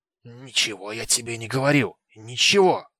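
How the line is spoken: Hissed. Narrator (Russian): прошипел он

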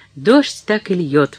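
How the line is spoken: Exclaiming. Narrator (Russian): воскликнула она

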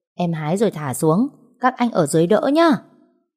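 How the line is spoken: Shouting down from above. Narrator (Vietnamese): ngó xuống gào lên

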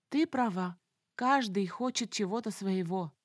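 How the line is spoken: Perplexed sigh. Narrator (Russian): вздохнула я, снова оказавшись в тупике собственных мыслей

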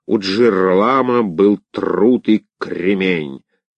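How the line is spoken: Speaking with a burr. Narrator (Russian): картавя сказала она

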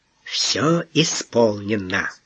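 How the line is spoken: Conspiratorial tone. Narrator (Russian): заговорщическим тоном сообщил Дон

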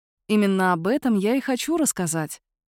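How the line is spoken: Soft. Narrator (Russian): мягко говорит Джорджия

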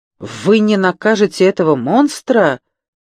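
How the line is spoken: Fervent exclamation. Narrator (Russian): с жаром воскликнул Франсуа

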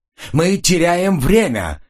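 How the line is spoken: Furious yelling. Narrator (Russian): яростно заорал он

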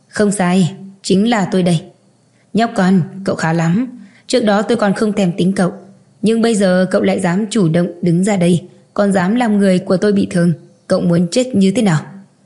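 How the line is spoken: Cold, unafraid. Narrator (Vietnamese): Từ Tử Văn không sợ hãi mà lạnh lùng nói

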